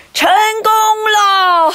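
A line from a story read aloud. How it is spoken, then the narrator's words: Old man shouting. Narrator (Chinese): 一位老先生大声喊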